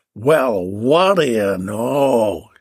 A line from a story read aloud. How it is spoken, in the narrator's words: she slurred